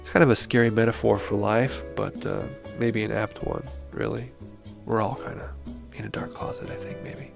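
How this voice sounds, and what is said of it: Tired, hoarse voice. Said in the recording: “I sound like I'm really tired and hoarse”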